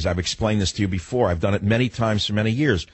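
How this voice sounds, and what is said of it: Brooklyn accent. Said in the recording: “my accent sounds like that of a truck driver from Brooklyn”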